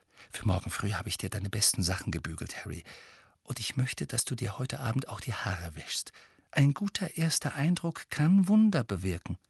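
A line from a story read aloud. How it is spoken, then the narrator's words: Quiet. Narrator (German): leise sagte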